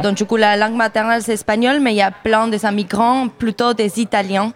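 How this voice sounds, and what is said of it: Spanish-speaking accent in French. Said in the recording (French): “Quel rôle je joue avec cet accent? ... Qui avait un petit accent comme toi”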